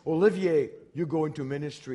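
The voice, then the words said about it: Deep voice with French accent. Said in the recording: “God always has a deep voice, right? So, and a French accent.”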